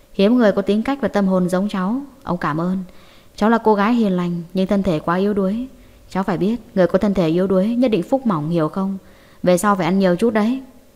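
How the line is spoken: Smiling old man. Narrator (Vietnamese): Trần Lão mỉm cười

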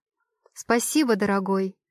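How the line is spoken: Snide, smiling tone. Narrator (Russian): ехидно улыбаюсь

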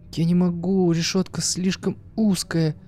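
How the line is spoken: Silent thought, near sobbing. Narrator (Russian): чуть не рыдая от боли, мысленно ответила ему Юля

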